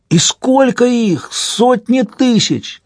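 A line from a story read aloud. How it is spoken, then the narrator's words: Concluding shout. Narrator (Russian): крикнул в заключении Вальпат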